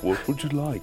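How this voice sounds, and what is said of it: British impression of another person's voice. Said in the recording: “Was that your John Cleese impression? ... did a pretty good job. Like, didn't sound just like ... generic British ... guy.”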